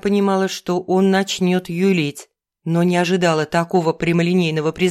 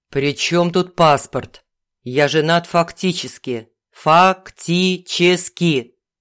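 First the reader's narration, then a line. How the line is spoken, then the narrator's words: Loud, syllable by syllable. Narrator (Russian): Произнес он громко и по слогам, совершенно не стесняясь того, что говорит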